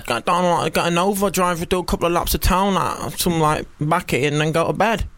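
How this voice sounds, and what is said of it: Impression of a chav character. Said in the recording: “that's my impression of a Kev”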